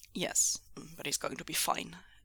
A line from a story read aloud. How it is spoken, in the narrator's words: Mingzhu said gruffly